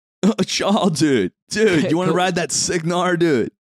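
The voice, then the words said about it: Stereotypical surfer voice. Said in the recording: “stereotypical surfer voice”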